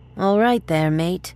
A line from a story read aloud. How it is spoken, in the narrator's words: one female slurred